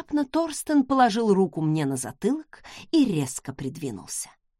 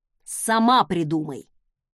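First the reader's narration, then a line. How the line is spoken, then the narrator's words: Irritated tsk. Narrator (Russian): Он раздраженно цыкнул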